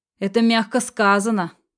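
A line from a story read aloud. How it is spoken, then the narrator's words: Sudden sharply raised voice. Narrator (Russian): Вдруг резко повысил голос Кирилл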